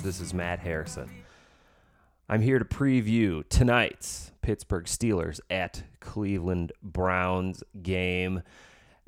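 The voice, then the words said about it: Smooth jazz radio voice. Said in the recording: “in my smooth jazz voice... Yeah, smooth jazz.”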